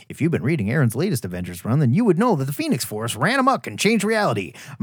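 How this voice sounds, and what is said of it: Impression of a Marvel assistant editor. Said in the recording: “Here's my best Marvel assistant editor impression.”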